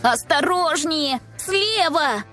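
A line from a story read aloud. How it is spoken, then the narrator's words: Yelling warning. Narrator (Russian): завопила Маша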